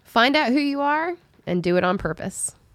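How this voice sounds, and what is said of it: Put-on Southern American accent. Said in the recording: “talk Southern now that we're talking about Dolly Parton ... My Southern. Well, I've been trying to save it for just her quotes.”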